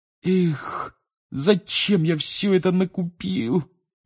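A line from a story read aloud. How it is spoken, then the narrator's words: Groaning. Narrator (Russian): простонал Рон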